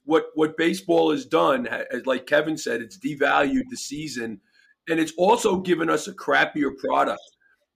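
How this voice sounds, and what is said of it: Hoarse, strained voice. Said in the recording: “I was screaming at a game on Sunday, so my voice is a little shot.”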